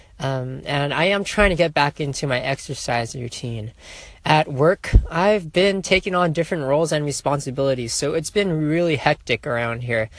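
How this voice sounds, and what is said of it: Slightly raspy voice. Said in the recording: “I was sick last week. ... my voice is still a little bit raspy.”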